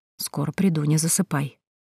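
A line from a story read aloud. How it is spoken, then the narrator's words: Whisper. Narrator (Russian): прошептал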